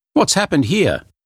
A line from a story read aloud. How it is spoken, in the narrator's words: he cried